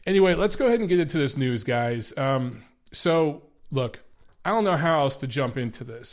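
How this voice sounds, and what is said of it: Stuffy, congested voice. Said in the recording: “forgive my voice if I'm a little stuffy ... I'm a little stuffy and everything”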